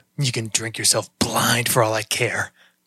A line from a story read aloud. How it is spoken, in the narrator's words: Krycek muttered